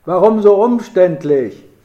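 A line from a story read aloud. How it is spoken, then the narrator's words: Laughing call. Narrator (German): rief Gertrud, und dabei riss sie ihren kleinen Mund lachend auf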